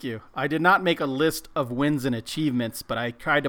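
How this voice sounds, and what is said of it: Usual voice. Nothing is said of it.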